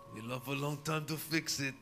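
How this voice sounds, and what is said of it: Watto impression, Grecian-sounding accent. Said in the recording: “It is more of a Grecian accent. Watto from Star Wars? ... More of a Grecian ass accent.”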